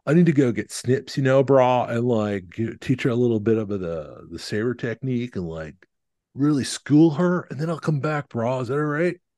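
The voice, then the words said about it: Put-on Southern California accent. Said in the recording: “I've settled into a Southern California accent, but we're just going to go with it.”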